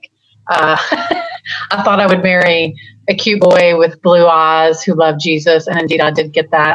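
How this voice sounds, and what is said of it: Slight Texas accent. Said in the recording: “you can hear my accent a little bit ... you can take the girl out of Texas, but you can't take the Texas out of the girl”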